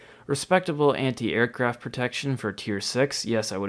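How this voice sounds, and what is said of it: Usual voice. Nothing is said of it.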